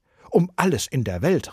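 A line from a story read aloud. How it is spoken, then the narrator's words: Called out. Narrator (German): rief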